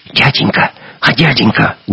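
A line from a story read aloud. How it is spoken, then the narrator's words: Whisper. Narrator (Russian): чей-то шепот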